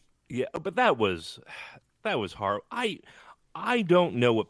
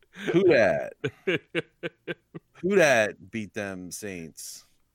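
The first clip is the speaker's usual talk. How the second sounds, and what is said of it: Put-on Cajun accent. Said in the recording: “make sure in your head you're doing the Cajun accent”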